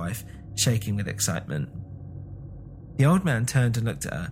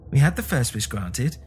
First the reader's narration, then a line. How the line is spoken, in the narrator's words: said the old woman desperately